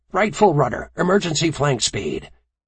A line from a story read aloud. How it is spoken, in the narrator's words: Fort of the North Carolina barked